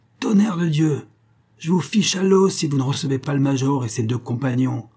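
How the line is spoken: Cry out. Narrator (French): s'écria le grenadier

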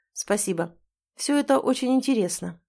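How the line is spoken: Dry. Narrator (Russian): сухо произнес

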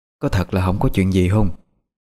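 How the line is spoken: Anxious, worried. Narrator (Vietnamese): giọng của bà vẫn lo lắng không yên

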